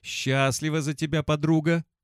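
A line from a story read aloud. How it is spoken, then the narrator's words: Hurried, breathless. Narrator (Russian): поспешно выдохнула галерейщица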